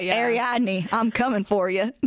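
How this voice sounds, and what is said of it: Exaggerated Southern US accent. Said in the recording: “a very southern accent ... a full-on, like, Bama boy level.”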